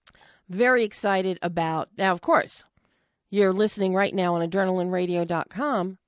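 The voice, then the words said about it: Strained, failing voice. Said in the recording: “I, I, think I'm losing my voice and choking”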